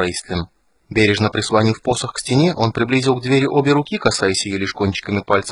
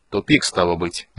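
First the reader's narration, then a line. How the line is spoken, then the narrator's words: Gloomy. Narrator (Russian): мрачно сказал Эбен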